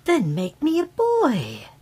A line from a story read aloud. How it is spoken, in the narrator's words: exclaimed the fairy eagerly